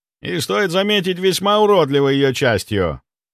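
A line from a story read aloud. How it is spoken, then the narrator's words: Loud. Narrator (Russian): Громко произнес я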